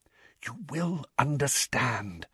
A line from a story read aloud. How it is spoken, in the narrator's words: whispered Dumbledore